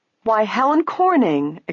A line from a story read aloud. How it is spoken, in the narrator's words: exclaimed Nancy